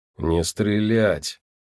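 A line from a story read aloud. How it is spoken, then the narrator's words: Icy voice. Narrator (Russian): ледяным голосом произнес он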